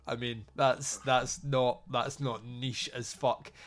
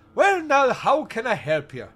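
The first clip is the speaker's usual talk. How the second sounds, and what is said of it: Put-on Irish accent. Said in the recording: “I'm doing my best Irish accent.”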